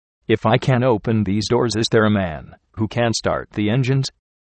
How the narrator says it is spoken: I asked

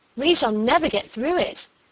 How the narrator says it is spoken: she cried

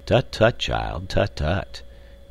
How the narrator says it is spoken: responded Professor Porter in a kindly and indulgent tone

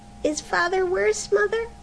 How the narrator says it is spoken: When he heard her sobbing, he was frightened, and said

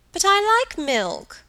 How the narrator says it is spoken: cried Helen

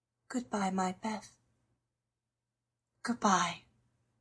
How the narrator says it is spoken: with her heart on her lips, and softly whispered

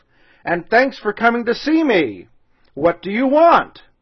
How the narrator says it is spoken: answered the North Wind, for his voice was loud and gruff

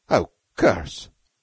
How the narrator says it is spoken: said Beetle uneasily

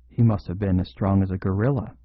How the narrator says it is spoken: he muttered

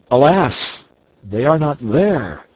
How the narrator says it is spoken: sinking down motionless, I cried

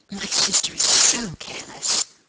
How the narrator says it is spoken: whispered Margaret

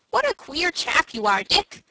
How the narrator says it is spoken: said Frank, laughing

